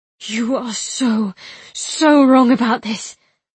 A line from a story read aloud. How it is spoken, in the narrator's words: I said hoarsely